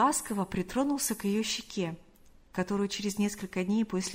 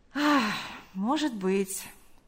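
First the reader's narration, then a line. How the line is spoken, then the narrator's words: Sighing. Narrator (Russian): вздохнув, сказал он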